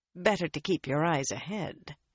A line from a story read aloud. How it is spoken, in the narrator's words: she said quietly